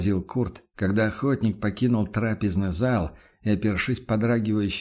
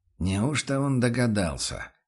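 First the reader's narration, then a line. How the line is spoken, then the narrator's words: Tense mutter. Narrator (Russian): напряженно пробормотал помощник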